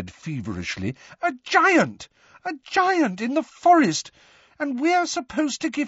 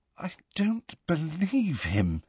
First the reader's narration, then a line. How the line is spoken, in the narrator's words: said Hermione in a very unsteady voice